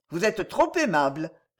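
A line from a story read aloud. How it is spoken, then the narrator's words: Cold reply. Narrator (French): répondit Louise froidement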